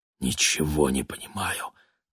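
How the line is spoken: Whisper. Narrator (Russian): прошептал Володя

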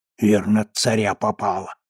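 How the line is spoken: Kids whispering. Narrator (Russian): шептались ребята

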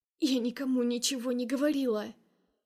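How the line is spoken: Barely audible rasp. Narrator (Russian): Сиплю еле слышно

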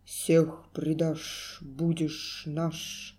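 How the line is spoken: Solemn gloomy trumpet prophecy. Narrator (Russian): торжественно-мрачно пророчествуют трубы

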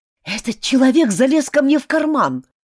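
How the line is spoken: Agitated. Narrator (Russian): взволнованно заявил он

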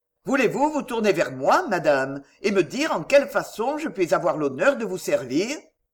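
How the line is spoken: Cold, restrained but kind. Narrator (French): Blakeney se contint au prix d'un effroyable effort de volonté et dit froidement, bien qu'avec beaucoup de bonté

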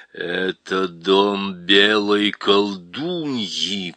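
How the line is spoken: Growl. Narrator (Russian): прорычал

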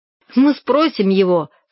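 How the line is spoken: Laughing. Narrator (Russian): сказал он, смеясь

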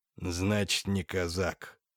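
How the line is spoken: Breathed out. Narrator (Russian): выдохнул Михаил Константинович

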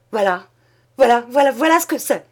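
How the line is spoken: Stammered. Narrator (French): Il balbutia

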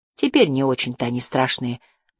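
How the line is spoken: Mutter. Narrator (Russian): пробормотала Жасмин

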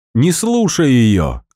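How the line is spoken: Shout. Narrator (Russian): крикнула Марина

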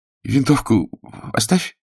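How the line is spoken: Timid request. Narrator (Russian): попросил Умин, робко

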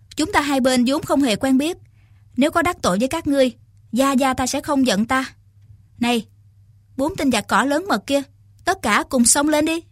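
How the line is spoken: Young woman, smiling. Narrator (Vietnamese): Thiếu nữ mỉm cười nói

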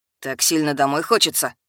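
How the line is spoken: Dry, harsh question. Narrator (Russian): Сухо, я бы сказала, жестко поинтересовался Ярен

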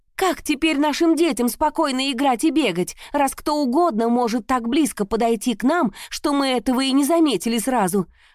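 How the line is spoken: Woman shouting. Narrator (Russian): выкрикнула какая-то женщина

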